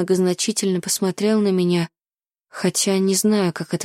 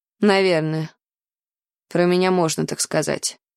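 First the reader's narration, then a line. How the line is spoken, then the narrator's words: Snort. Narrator (Russian): фыркнул Ной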